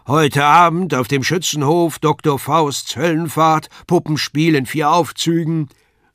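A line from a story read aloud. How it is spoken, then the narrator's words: Loud public announcement. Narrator (German): der Ausrufer laut verkündigte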